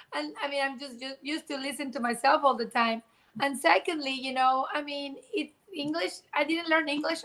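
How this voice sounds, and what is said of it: Speaks English with a foreign accent. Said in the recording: “just your accent as well, and not trying to shame or not hide where you're from”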